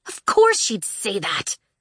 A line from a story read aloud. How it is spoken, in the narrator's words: Tella spat